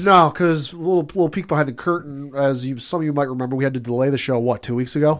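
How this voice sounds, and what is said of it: Congested, stuffy-sounding voice. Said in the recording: “I sound weird, I'm fighting allergies or a head cold or something”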